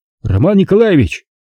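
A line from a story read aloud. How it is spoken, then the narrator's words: Shouted. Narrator (Russian): закричал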